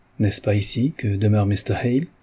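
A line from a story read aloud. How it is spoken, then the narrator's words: Clear, resonant, gentle. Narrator (French): demanda-t-il d'une voix claire, sonore, mais qui ne manquait pourtant pas de douceur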